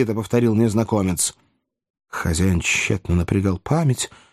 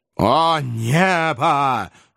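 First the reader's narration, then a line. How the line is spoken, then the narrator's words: Exclamation. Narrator (Russian): воскликнул незнакомец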